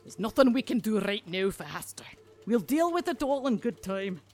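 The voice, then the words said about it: Dubious put-on accent. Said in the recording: “my accent is already dubious enough”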